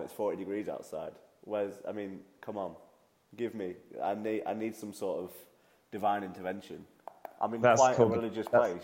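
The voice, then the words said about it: Congested voice with a cold. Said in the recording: “I've got a cold ... I've got a cold”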